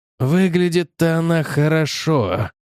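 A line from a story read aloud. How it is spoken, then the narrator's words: Spoken through teeth. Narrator (Russian): процедил Грегор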